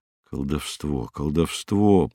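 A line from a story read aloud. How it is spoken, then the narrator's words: Quiet repetition. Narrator (Russian): повторял негромко Северцев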